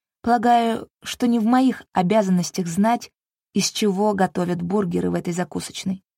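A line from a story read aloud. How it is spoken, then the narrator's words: Plain. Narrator (Russian): ответила я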